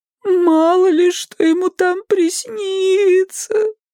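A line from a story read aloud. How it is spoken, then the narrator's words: Muffled moan under blanket. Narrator (Russian): простонал из-под одеяла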